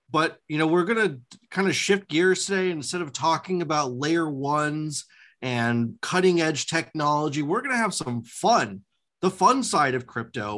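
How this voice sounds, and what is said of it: Voice with a slight cold. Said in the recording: “you're a little under the weather ... I've got a little cold.”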